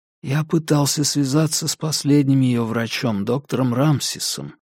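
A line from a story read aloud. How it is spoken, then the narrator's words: Quiet. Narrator (Russian): тихо промолвил Чарли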